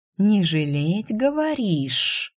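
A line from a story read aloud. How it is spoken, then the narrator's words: Hissing. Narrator (Russian): зашипела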